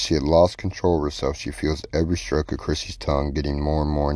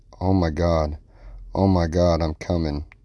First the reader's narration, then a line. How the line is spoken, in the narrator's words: Katie moans